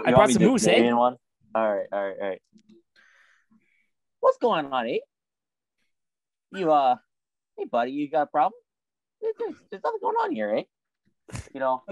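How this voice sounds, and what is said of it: Poor put-on Canadian accent. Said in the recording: “my Canadian impression is terrible”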